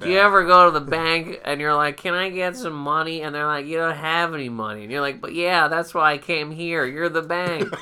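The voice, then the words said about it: Imitates another person's voice. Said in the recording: “That's my impression of ... shitty impressions ... a bad impression of you”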